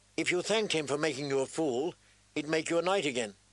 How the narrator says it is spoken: Sansa said sharply

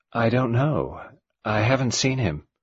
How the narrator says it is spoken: She answered in her gentle, expressionless voice

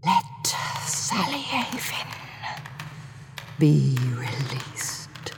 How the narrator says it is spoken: he whispered

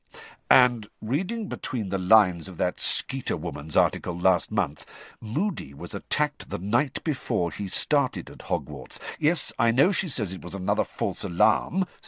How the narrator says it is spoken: Sirius said hastily, seeing Harry about to speak

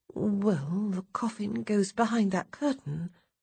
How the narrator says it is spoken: I murmur in an undertone

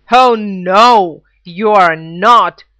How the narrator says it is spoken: bellowed the eldest Billy Goat Gruff

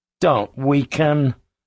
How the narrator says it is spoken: pleaded

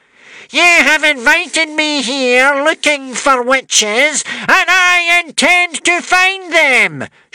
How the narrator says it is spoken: shouted the witch smeller

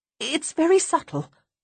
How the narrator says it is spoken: say desperately

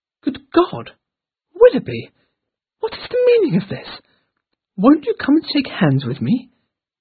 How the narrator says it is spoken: exclaimed

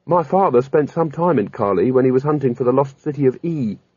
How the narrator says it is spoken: said Kanina

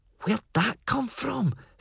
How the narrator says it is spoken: Felpie breathed

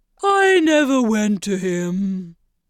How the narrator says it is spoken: the Mock Turtle said with a sigh

